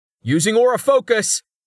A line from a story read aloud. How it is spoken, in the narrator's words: Rain yelled